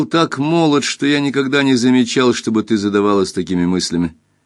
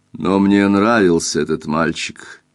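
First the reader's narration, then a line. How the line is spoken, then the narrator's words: Quiet. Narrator (Russian): тихо сказал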